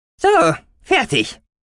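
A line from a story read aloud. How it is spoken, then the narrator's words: Cheerful squeak. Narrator (German): piepste Gucki fröhlich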